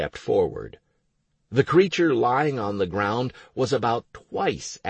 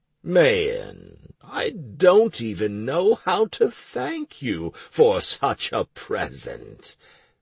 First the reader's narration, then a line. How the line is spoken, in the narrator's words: Garenika drawled with satisfaction